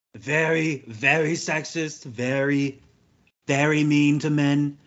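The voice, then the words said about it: Imitates another person's voice. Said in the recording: “That's the Shane Gillis school of doing the Trump impersonation right there.”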